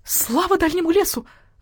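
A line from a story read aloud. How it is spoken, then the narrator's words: Hen exclaiming. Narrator (Russian): воскликнула кура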